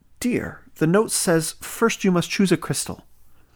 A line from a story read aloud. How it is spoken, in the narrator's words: her mother said